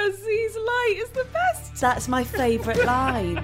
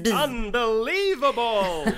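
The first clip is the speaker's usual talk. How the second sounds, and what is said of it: Impression of a film character's voice. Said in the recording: “Spot on there ... That was very good. Never sounded more like a glamorous black man.”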